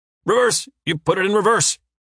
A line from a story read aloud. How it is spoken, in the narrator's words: Uwe manages to say through his teeth